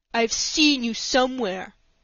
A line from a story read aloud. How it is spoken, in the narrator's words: he said in a surly tone